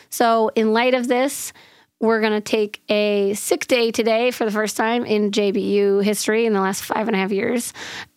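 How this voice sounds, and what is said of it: Hoarse, nearly lost voice. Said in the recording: “you can probably tell that I have lost my voice. ... It's actually day four of my voice being MIA. This is the best I've sounded.”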